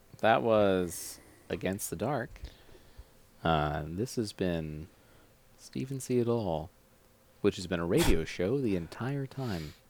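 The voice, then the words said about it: Late-night radio announcer voice. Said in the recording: “my late night radio announcer voice ... going for like charming fireside chat ... call in and tell me about your encounters with UFOs”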